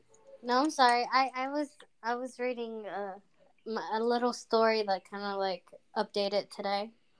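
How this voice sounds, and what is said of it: Speaks with a noticeable accent. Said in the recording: “I like the way she says words. I know it's just her accent”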